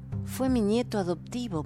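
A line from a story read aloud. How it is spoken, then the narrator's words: Murmuring. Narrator (Spanish): murmuró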